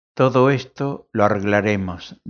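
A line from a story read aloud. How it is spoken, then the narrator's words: Plain. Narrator (Spanish): dijo, contestó Aldis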